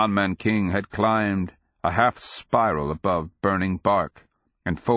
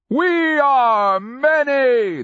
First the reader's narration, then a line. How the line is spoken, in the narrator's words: the erratic roared